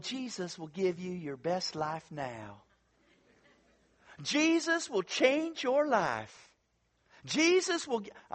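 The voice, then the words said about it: Southern preacher impression of Joel Osteen. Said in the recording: “you know who I'm imitating, okay? Hopefully you know. I'm not imitating Southern people in general, but one specific Southern person, okay? He lives in Texas ... Joel Osteen”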